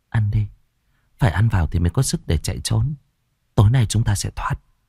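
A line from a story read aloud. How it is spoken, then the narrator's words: Nervous reassuring. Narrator (Vietnamese): Tôi khẽ nuốt nước bọt rồi trấn an bọn nhỏ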